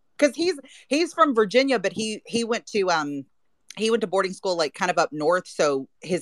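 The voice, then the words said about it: Southern American accent. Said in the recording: “you're Nashville showing ... that southern accent”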